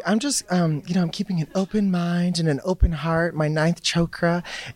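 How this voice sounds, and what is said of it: Slipping into a British accent. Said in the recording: “I'm picking up like the British accent here”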